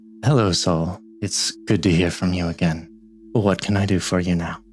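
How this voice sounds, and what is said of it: Deeply tired character voice. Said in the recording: “you can hear in their voice this deep tiredness”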